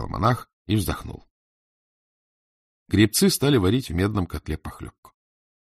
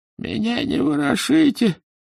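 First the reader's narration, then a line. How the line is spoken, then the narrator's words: Dying man's moan. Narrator (Russian): простонал умирающий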